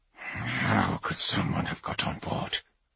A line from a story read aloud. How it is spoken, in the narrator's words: Kavar muttered